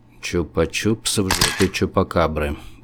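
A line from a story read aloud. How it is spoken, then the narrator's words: Mumbled while exhaling smoke. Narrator (Russian): пробормотал я, выдыхая горьковатый дым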